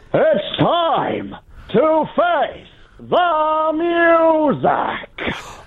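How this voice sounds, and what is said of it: Impression of Peter Davidson. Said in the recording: “can you give us your Peter Davidson? ... it's your impression ... Oh, it's good. It's good. I've heard it's a decent one”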